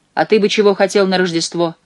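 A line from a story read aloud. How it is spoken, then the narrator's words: Rude question. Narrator (Russian): грубо спросил Коди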